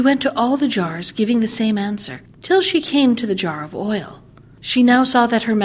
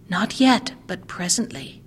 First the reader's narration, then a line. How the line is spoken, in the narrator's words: answered quietly